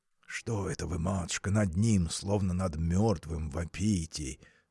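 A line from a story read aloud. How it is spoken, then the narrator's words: Whispered. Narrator (Russian): шепнул он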